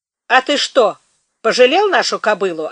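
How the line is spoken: Snapping retort. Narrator (Russian): огрызнулся Федька

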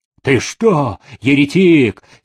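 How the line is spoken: Angry abbot interrupting. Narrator (Russian): сердито перебил игумен

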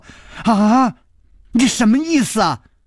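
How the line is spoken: Shrieking question. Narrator (Chinese): 她尖叫着问陆小凤说

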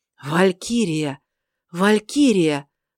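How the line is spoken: Exclaiming. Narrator (Russian): воскликнул он

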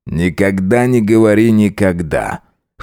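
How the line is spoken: Snorting. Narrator (Russian): хмыкнул он

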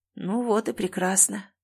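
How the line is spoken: Sigh. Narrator (Russian): вздохнул

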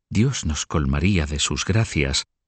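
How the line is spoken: Murmured in ear. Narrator (Spanish): le murmuró Felipe al oído

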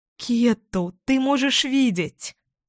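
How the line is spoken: Relieved exclamation. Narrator (Russian): с облегчением воскликнула я

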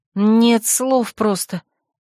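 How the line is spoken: Indignant exhale. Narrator (Russian): возмущенно выдохнула я

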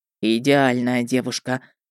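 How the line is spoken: Rapturous sigh. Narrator (Russian): восторженно вздохнул он

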